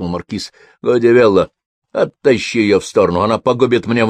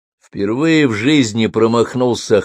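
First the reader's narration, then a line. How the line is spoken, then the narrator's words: Wry snort. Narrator (Russian): хмыкнул маркиз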